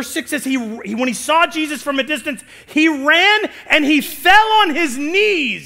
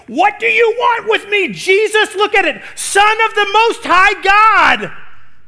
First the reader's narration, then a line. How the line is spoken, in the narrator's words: He shouted at the top of his voice